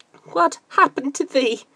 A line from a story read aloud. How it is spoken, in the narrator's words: Friday sobbed